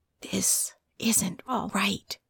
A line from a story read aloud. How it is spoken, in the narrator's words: something that whispered